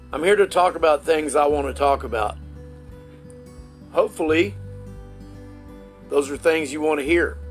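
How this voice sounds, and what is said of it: Texas redneck accent. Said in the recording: “my redneck accent. I'm from Texas. This is just the way I talk.”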